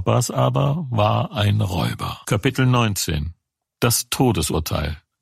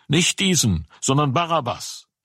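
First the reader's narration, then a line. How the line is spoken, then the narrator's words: Shouting crowd. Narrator (German): schrien wieder und sprachen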